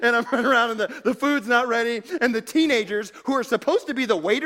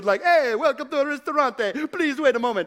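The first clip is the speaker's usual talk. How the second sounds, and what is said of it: Put-on Italian accent. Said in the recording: “speaking in an Italian accent, trying to lighten the mood”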